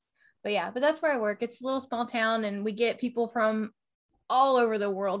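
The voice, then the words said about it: Southern US country accent. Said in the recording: “Every time you talk and I hear you talk, my accent gets thicker ... talking like I'm back in Kentucky ... listening to the past 2 days is Reba McEntire, so that's got my accent out of whack”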